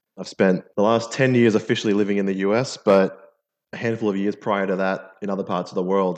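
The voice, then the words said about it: Mixed Australian-American accent. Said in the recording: “I'm an Australian by background. I'm a, I'm a native Australian, although with the accent, you'll probably pick up it's a bit of a mutt accent.”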